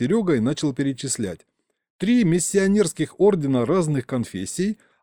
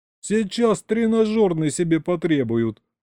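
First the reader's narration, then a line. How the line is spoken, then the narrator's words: Chuckling. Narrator (Russian): снова хохотнул Саня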